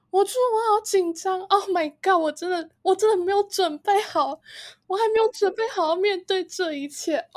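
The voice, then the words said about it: Imitation of a panicked nervous friend. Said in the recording (Chinese): “你好模仿哦，天哪，完全就是我”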